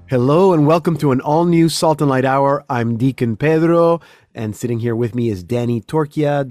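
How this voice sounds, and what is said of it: Slightly congested voice from a cold. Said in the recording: “I have a little bit of a cold. I don't know if you can hear it in my voice”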